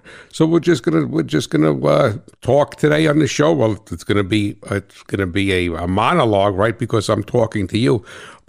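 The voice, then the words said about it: New Jersey accent. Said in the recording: “the guy with the New Jersey accent”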